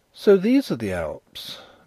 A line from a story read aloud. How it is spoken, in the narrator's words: Nellie exclaimed